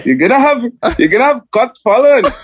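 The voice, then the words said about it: Attempted German accent. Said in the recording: “Your cameraman is a Jamaican grandfather, is what it sounds like? ... I was trying to do a German accent.”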